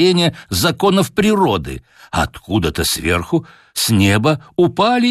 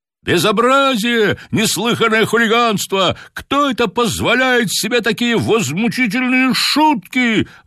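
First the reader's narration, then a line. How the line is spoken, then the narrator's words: Excited crowd shouting. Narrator (Russian): возбужденно кричали на трибунах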